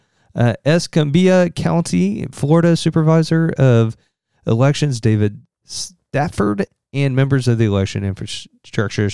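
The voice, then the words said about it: Southern Indiana accent. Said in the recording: “my Southern Indiana accent and lack of being able to pronunciate or enunciate”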